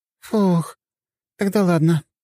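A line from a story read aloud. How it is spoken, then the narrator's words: Relieved exhale. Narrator (Russian): с облегчением выдохнула Полина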